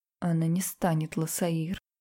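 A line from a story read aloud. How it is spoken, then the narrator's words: Quiet. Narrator (Russian): тихо сказал он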